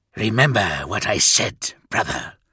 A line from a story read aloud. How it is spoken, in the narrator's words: he whispered to me